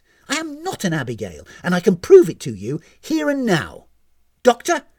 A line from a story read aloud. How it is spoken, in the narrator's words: barked